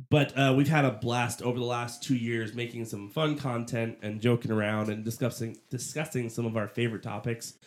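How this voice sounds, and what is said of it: Congested, strained speaking voice. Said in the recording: “sorry about my voice. I've had really bad allergies today.”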